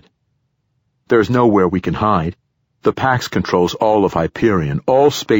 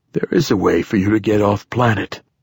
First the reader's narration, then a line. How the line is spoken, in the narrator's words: the poet said in a tired voice